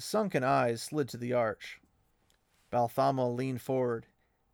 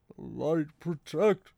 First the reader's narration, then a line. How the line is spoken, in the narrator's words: Loyal began, his voice shaking, and cut off abruptly